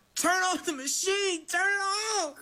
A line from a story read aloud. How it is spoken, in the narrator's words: I hollered